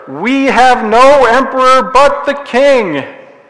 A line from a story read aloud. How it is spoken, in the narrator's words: so loudly declare